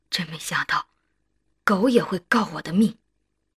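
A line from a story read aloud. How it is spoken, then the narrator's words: Sighing, muttering to self. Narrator (Chinese): 张武这才长叹一声，瘫倒在地，喃喃自语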